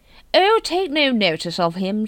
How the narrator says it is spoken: she said cheerfully

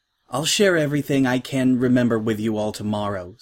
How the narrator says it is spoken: said Twilight

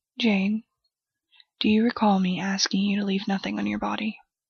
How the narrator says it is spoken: The man's voice was quiet, his tone even

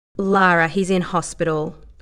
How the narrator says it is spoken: Alan said, his tone now a serious one

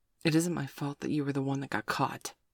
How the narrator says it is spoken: Sabrina sighed

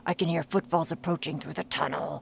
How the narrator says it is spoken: growled Grignr in a hushed tone

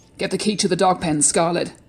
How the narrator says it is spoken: Silas barked at me in a commanding tone

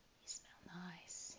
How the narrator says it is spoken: whispers

